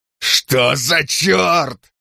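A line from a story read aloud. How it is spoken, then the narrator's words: Yelling. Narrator (Russian): заорал он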